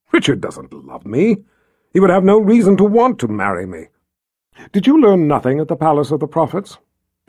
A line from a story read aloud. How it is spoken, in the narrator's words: Anne clicked her tongue impatiently